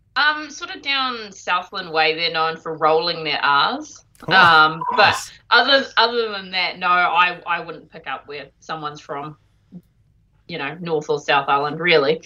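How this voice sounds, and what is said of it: Strong New Zealand accent. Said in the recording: “The familiar New Zealand accent coming through ... Yeah, it'll be strong.”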